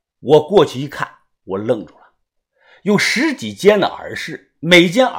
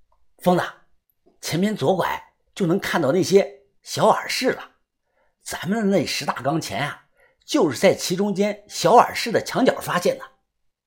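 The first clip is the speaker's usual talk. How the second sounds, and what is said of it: Quiet, hushed speech. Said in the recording (Chinese): “小声地说”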